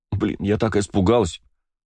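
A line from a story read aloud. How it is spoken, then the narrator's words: Sobbing. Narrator (Russian): всхлипнула Кристина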